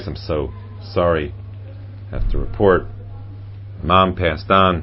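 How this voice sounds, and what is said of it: Somber, mournful funereal voice. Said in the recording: “in my most funereal voice. ... I can act that too. My most funereal voice.”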